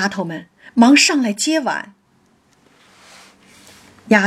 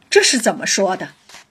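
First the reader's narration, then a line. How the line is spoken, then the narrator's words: Startled, hurried laugh. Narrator (Chinese): 玉钏唬了一跳，忙笑道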